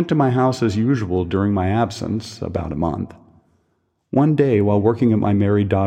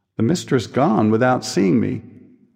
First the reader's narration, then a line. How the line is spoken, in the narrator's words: she was very much taken aback, moved, and exclaimed